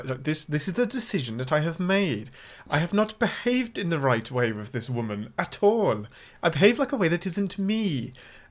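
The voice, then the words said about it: Put-on Welsh accent. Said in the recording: “Don't laugh at my Welsh accent; it's spot on.”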